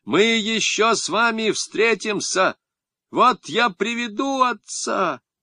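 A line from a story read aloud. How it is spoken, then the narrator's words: Shout. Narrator (Russian): крикнул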